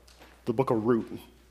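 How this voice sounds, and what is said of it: Playful put-on Newfoundland accent. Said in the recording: “Let's do a little local dialect... Let's just give it a Newfoundland dialect.”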